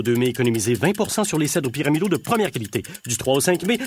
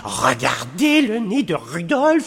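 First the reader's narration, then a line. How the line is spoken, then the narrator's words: Elf exclaiming. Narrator (French): s'exclama un lutin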